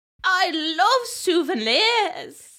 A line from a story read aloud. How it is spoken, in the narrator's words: shouted Harry off screen